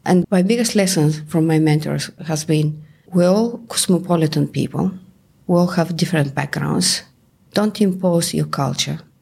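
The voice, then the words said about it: Bulgarian accent. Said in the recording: “you can hear that even 30 years later, I still have the Bulgarian accent.”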